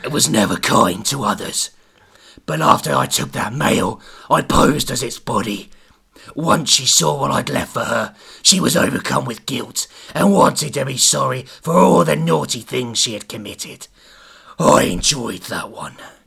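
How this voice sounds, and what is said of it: Demonic cockney gangster voice. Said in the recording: “You're sounding more and more cockney. ... You sound like a demon cockney gangster.”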